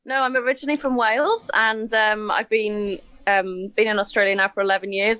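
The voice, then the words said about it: Welsh accent, not fully Australian. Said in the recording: “That's not a full-on Aussie accent that I'm hearing.”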